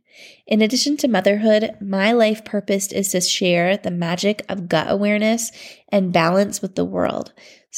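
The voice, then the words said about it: Sick, worn-out voice. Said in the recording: “You can probably hear it in my voice. My family and I have COVID. ... we are all pretty wiped”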